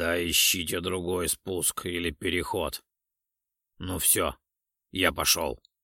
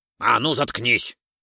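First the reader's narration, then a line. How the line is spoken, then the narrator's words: Sharp bark. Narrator (Russian): рявкнул на него Ролдон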